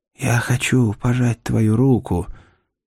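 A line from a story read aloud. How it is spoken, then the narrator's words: Whisper. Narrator (Russian): я прошептал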